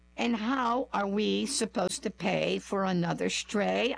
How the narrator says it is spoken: sighed

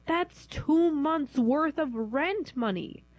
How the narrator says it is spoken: she wailed

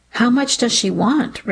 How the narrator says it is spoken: Ricky said, his voice more curious than angry

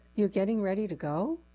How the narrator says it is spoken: the assistant said

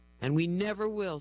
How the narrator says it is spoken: says Rick, his voice choked with emotion

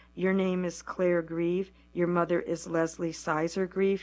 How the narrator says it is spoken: he correctly answered

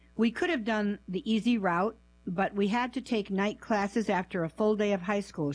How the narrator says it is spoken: she said

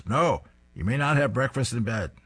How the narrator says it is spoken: sternly shouts

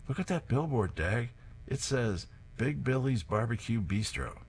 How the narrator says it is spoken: Herb points to his left and exclaims

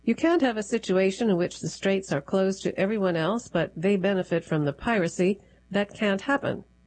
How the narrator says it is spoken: he said

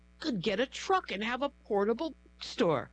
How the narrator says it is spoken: her spirit cried

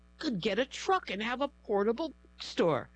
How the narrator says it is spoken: her spirit cried

